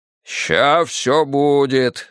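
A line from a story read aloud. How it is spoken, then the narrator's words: Hopeful deep voice. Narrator (Russian): с надеждой пробасил кто-то из толпы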